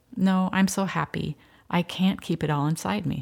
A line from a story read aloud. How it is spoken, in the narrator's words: said